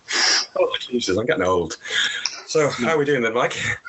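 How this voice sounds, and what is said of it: Slightly out of breath. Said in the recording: “I'm slightly out of breath because I've just run up the stairs”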